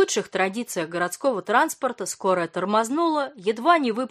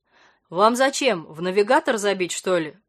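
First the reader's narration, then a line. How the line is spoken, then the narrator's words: Deep voice, pleased chuckle. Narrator (Russian): пробасил водитель и довольно хохотнул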